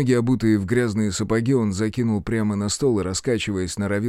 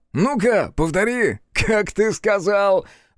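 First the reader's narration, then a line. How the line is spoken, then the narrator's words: Roaring laughter. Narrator (Russian): расхохотался тот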